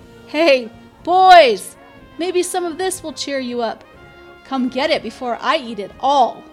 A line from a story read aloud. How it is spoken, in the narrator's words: Another voice, this one joyful, called out